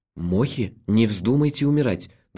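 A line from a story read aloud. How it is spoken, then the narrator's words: Trembling voice. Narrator (Russian): дрожащим голосом сказал я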